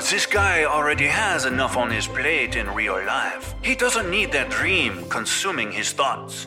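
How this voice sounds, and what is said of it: Bad put-on French accent. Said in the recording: “a bad French accent”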